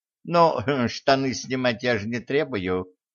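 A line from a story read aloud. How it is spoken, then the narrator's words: Old woman snorting. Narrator (Russian): хмыкнула старуха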